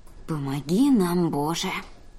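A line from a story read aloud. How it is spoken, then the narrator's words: Muttering. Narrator (Russian): пробормотала Ри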